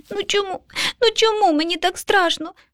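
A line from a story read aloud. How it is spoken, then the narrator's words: Child sobbing. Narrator (Ukrainian): схлипнув малюк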